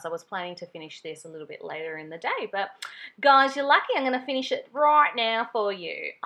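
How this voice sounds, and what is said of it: Broad Australian accent. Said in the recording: “I don't know why I have an Ocker accent all of a sudden.”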